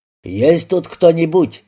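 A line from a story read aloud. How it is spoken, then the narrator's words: Shout. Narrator (Russian): крикнул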